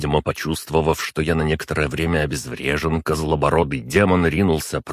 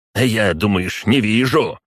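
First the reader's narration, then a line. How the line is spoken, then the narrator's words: Shouted. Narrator (Russian): крикнул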